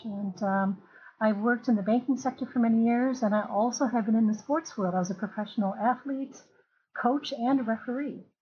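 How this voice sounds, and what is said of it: American and Luxembourgish accent. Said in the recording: “through my accent, you can hear that I'm American and also Luxembourgish”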